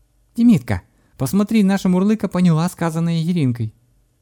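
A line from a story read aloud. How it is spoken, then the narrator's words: Surprised exclamation. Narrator (Russian): удивленно воскликнула Влада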